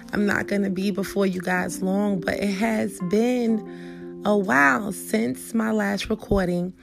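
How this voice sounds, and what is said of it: Voice still affected, not fully recovered. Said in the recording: “pardon my voice right now in advance ... I am getting over illness ... I got a little ways to go to be 100%”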